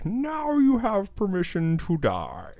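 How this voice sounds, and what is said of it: Chris Farley-style Sean Connery impression. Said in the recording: “Is that Sean Connery? ... I think that was like Chris Farley doing a Sean Connery impression.”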